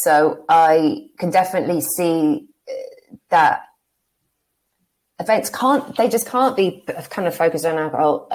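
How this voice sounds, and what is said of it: English accent. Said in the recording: “the accent is English”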